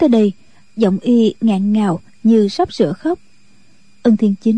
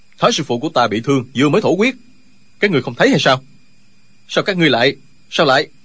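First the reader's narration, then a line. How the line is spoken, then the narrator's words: Worried, exasperated shout. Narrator (Vietnamese): Tri khách đạo sĩ của phái Võ Đan là Linh Hư từ đầu vẫn lo lắng cho thương thế của Thái Sư Phụ, lúc này không còn nhịn nổi nữa, quát lên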